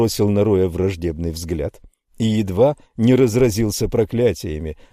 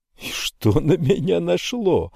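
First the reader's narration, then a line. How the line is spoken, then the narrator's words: Laughing loudly. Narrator (Russian): захохотал Рой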